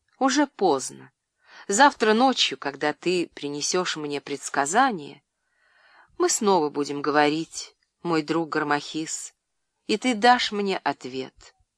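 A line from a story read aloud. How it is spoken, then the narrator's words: Tender, smiling. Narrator (Russian): Клеопатра нежно улыбнулась и сказала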